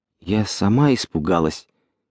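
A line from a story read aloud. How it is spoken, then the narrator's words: Quiet voice. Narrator (Russian): тихим голосом произнесла фрау Браун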